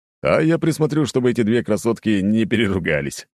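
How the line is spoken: Chuckling. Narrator (Russian): хохотнул Володя

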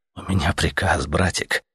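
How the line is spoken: Soft. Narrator (Russian): мягко ответил Летяга

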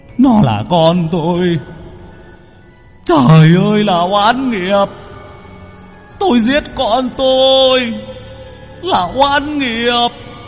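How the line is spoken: Wailing, sobbing man. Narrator (Vietnamese): Người đàn ông ... gào khóc

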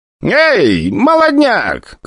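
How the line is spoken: Shouted. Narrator (Russian): крикнула графиня

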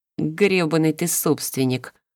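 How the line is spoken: Unoffended amused snort. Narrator (Russian): хмыкнул Дитер, вроде бы даже не обидевшись

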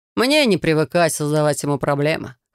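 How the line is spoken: Snorting, wry. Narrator (Russian): хмыкнул Трей

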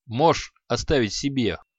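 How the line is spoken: Snorting. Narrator (Russian): хмыкнул Креол

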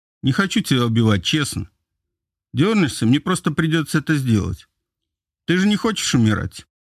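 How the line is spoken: Calm question. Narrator (Russian): Спокойно … интересуюсь

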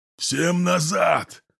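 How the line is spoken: Hoarse yell from behind. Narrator (Russian): слышу за спиной хриплый вопль садиста

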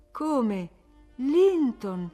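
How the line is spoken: Joyful surprised exclamation. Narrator (Italian): esclamò Cathy, illuminandosi tutta di gioia e di sorpresa a quel nome

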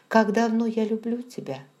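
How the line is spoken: Perfectly calm question. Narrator (Russian): спросил он совершенно спокойно

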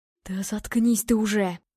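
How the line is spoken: Hissed. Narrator (Russian): прошипел Игорь

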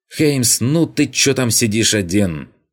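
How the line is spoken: Shouted. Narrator (Russian): крикнул мне Вольтерес

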